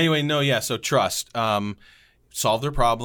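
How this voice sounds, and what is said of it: Usual voice. Nothing is said of it.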